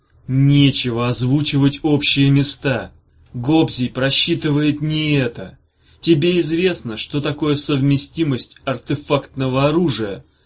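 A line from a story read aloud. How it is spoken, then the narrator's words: Very loud question. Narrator (Russian): спросил Ромасюсик очень громко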